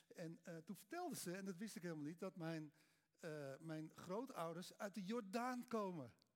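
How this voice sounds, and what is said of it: Amsterdam Dutch accent. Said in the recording (Dutch): “ik ben ook Amsterdammer, hoor je wel aan mijn accent natuurlijk”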